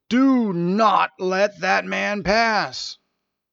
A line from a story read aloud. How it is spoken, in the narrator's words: A low, angry voice bellowed